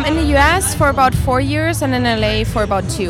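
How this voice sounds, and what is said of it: Slight German accent. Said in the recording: “you have a slight accent... Yes, I do... I'm from Germany.”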